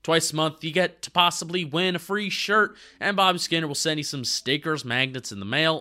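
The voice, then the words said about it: Put-on Southern US accent. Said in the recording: “I progressively got into like a southern accent.”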